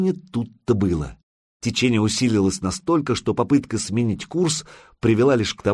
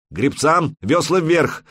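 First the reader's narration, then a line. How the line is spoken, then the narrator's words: Helmsman shouting. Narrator (Russian): закричал кормчий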